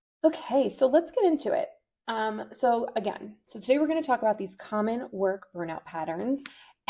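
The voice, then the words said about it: Slightly raspy voice. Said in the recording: “sorry for my voice, it's a little raspy today”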